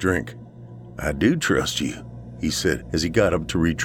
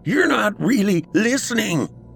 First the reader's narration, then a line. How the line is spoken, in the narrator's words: he snapped